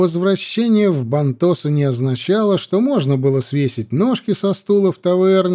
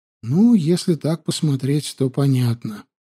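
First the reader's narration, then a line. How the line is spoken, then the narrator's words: Agreeing with a sigh. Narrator (Russian): согласилась, вздохнув Адельхейд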